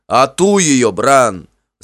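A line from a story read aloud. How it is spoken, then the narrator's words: Shouting. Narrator (Russian): закричал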